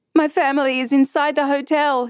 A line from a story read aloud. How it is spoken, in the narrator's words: wailed